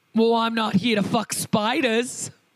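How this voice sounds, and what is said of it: Put-on Australian accent. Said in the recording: “Why is that the one I do the best Australian accent for?”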